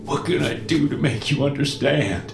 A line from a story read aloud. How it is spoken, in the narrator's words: whimpers